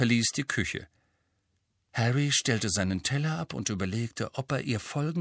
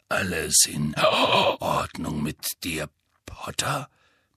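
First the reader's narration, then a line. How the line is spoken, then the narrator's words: Gruff grumble. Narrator (German): brummte Moody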